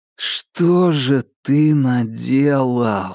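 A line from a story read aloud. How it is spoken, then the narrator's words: Annoyed drawl. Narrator (Russian): с досадой протянул Марк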